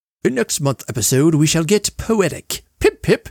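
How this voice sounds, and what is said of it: Bad put-on British accent. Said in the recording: “that was an awful accent. Sorry to all my British listeners”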